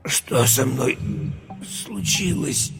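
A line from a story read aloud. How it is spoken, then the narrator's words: Strained wheeze. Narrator (Russian): Через силу прохрипел Юра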